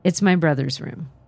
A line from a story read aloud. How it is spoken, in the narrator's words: softly said